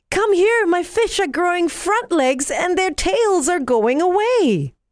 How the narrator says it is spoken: he yelled with excitement

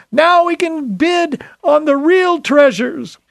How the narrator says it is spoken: someone exclaimed

